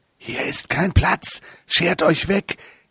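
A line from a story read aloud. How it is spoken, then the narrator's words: Prompter's hissing voice. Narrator (German): zischte die Stimme des Souffleurs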